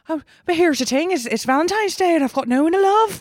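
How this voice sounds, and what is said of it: Put-on Irish accent. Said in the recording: “I do Irish too.”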